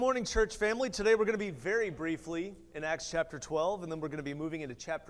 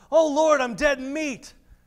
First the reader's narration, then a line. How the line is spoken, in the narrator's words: In fear, he shouts